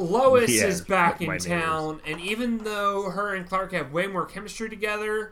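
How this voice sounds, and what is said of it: Usual voice. Nothing is said of it.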